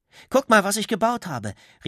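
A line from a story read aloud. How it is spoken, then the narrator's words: Calling out. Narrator (German): rief er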